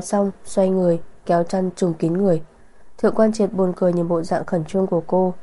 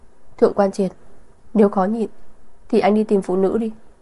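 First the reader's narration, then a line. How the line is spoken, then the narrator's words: Coughing, embarrassed exclamation. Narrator (Vietnamese): Vân Sở ho khan hai tiếng, đỏ mặt kêu lên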